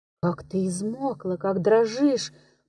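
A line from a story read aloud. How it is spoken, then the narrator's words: Whisper. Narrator (Russian): прошептал он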